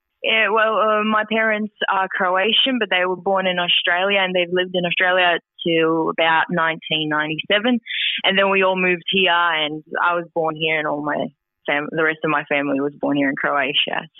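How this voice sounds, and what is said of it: Australian-influenced accent. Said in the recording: “I do detect an Aussie accent. ... I detect the accent”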